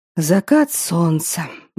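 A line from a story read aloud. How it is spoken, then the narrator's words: Mumbling. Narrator (Russian): бормотал он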